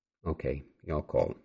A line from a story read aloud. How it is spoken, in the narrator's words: Janie said